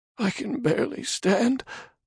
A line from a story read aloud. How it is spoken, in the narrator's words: the man moaned